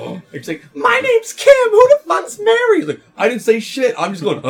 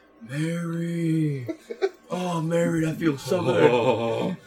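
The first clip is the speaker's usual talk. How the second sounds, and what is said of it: Low monotone moaning voice. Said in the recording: “moaning in such a low monotone voice? ... low monotone voice”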